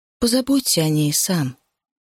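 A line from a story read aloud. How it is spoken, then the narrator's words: Muffled request. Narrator (Russian): она глухо просила Саммерина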